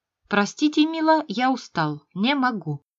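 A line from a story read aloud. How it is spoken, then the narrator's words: Calm. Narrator (Russian): спокойно сказал он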